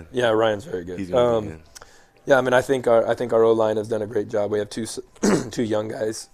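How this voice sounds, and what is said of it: Hoarse, fading voice. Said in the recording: “I'm losing my voice ... I lost my voice over here.”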